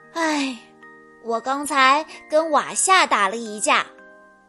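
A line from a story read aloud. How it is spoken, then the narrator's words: Sighing. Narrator (Chinese): 吉姆叹了口气说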